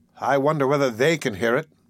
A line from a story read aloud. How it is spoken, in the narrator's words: said Nancy